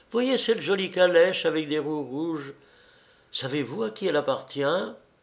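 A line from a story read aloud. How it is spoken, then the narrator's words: Sudden exclamation, woman. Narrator (French): s'écria tout à coup la dame blonde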